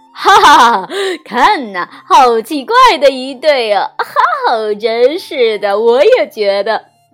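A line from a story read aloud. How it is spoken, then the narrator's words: Mocking laughter. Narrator (Chinese): 长颈鹿们开始嘲笑起来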